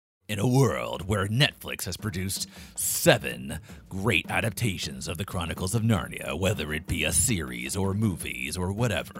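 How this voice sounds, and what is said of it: Movie trailer narrator voice. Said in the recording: “That's a good trailer voice. I like that. That's very good.”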